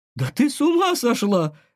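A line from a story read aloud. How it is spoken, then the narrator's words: Exclaiming. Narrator (Russian): воскликнула Валерия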